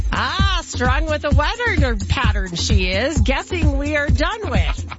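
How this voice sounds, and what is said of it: Yoda impression. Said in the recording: “in your Yoda voice”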